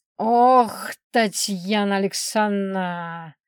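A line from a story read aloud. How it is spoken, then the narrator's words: Grumbling crocodile. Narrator (Russian): заворчал крокодил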